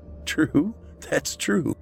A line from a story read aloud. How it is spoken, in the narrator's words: Matt said with a laugh